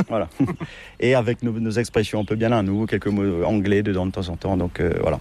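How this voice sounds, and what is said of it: Sing-song Mauritian French accent. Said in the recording (French): “l'accent, notre accent mauricien ... ce français qui est un petit peu ... peut-être un peu chantant”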